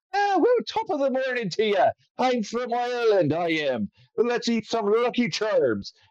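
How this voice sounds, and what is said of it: Put-on Irish accent. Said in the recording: “I'm like doing Lucky Charms voice ... if you're going to do an accent, just do Irish”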